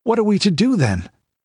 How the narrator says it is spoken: asked Balthus uneasily

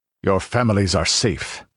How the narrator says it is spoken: grunted Conan

